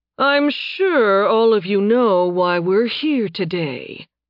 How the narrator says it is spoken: the regent said, his tone silky smooth

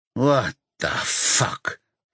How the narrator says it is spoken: Pieter mutters

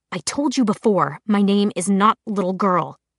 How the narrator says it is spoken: she said through her teeth

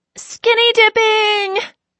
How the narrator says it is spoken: Kylie yells

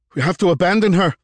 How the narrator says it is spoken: Hagen cried out

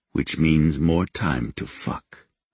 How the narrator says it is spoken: he purred

